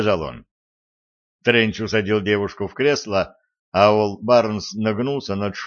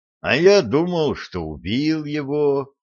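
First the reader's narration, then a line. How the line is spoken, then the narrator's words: Disappointed drawl. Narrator (Russian): разочарованно протянул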